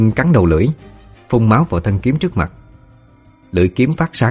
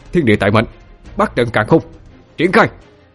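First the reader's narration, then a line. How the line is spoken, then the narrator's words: Shouting. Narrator (Vietnamese): Quân quát lên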